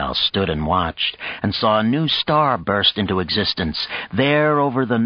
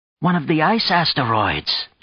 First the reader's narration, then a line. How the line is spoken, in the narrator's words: Nergal exclaimed